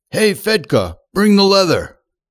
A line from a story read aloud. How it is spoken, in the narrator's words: a gentleman shouted to this lad